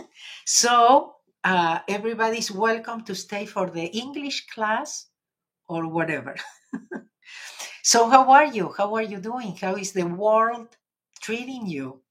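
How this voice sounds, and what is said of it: Argentinian-accented English. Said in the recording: “my life in English with an Argentinian accent”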